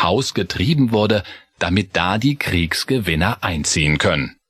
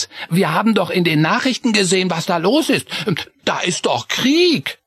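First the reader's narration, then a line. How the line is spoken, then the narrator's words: Called out. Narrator (German): rief Chris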